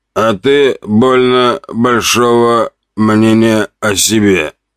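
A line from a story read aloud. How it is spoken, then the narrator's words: Hoarse chuckle. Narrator (Russian): раздался хриплый смешок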